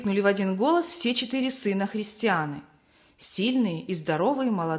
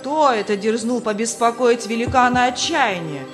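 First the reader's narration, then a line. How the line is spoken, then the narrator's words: Castle master shouting. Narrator (Russian): крикнул хозяин замка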